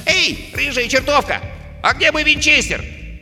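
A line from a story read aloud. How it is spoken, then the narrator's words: Shout. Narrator (Russian): поросенок крикнул, обращаясь к длинному чулку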